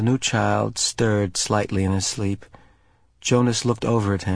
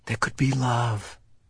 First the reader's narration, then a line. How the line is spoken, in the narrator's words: Jonas whispered